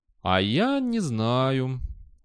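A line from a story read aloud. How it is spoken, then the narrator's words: Spoken very slowly. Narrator (Russian): очень медленно произнес Виктор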